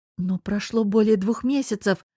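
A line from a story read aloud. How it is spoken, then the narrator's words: Confused, forced out. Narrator (Russian): растерянно выдавила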